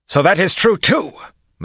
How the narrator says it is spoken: Massima snapped, spittle flying from his lips

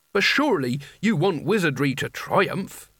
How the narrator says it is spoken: said Nigel

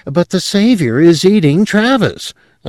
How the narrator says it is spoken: another of the Earth persons exclaimed

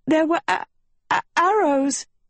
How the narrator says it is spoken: Agatha stuttered

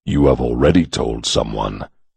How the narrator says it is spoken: the old man said coldly

